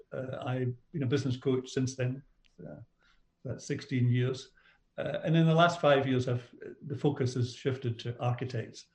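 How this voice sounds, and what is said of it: Scottish accent. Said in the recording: “I had a business career in Scotland. I'm not from Australia. You maybe picked up my accent.”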